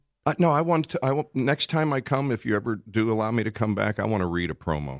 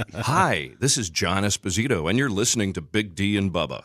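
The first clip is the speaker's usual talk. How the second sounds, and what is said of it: Polished radio announcer voice. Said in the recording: “you have a better radio voice than me ... Radio-y and everything”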